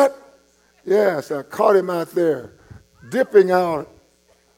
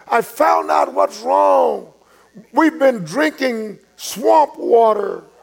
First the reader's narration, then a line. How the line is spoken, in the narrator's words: a call over the intercom shouting out, this driller says